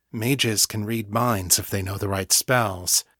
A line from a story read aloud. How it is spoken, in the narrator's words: said, keeping his voice as low as possible over the engine noise